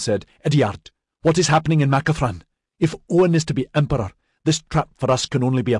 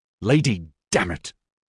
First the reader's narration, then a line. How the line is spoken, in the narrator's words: Ediard spat